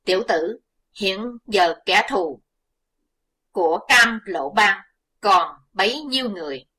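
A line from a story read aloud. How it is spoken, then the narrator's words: Gentle hesitant old monk. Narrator (Vietnamese): Như cảm thương Chí Tôn, Lão Hòa Thượng ngập ngừng một chút, dịu giọng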